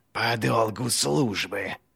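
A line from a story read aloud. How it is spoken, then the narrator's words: Furious hiss. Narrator (Russian): Яростно прошипел Глокта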